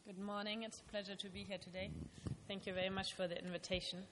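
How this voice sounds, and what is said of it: German accent. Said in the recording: “I'm originally from Germany, as you will be able to tell both from my name and my accent.”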